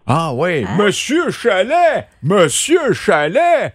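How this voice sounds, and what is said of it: Imitation of an ad announcer's voice. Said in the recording (French): “C'est lui qui fait ses pubs. Je l'imite bien. ... ton imitation.”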